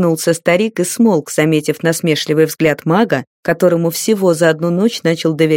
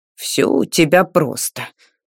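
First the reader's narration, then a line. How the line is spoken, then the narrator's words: Grumbling. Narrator (Russian): проворчал Жак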